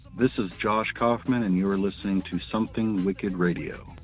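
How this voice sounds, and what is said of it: Announcer-style radio voice. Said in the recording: “It's my radio voice.”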